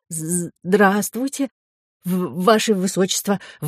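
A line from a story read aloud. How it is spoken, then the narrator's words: Strained, forced words. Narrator (Russian): выдавил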